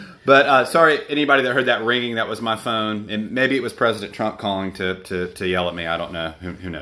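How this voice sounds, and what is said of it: Usual voice. Nothing is said of it.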